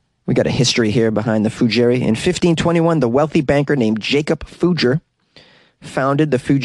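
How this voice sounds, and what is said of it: Usual voice. Nothing is said of it.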